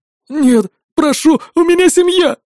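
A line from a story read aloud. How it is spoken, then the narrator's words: Sobbing plea. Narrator (Russian): всхлипнув, произнес он с мольбой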